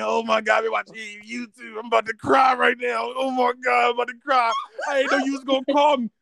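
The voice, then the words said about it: Impression of an emotional caller. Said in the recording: “I'm going to do the voice impression.”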